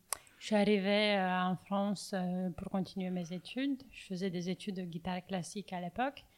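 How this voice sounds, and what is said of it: French with a slight Romanian accent. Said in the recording (French): “y a un petit accent qui vient de Roumanie”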